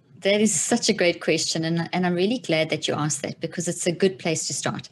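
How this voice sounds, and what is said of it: South African accent. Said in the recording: “South ... African accent.”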